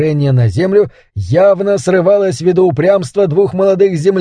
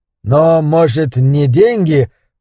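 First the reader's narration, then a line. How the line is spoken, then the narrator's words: Uncertain voice. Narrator (Russian): голос Ричарда звучал неуверенно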